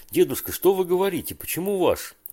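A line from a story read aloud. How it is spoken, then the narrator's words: Children pleading. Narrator (Russian): взмолились ребята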